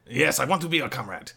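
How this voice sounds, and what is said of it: Put-on accent. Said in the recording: “I don't know if that's the accent I wanted to go with.”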